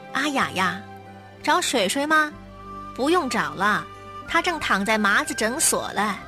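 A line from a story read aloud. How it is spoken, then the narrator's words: Loud. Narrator (Chinese): 水水的邻居阿火嫂 大声说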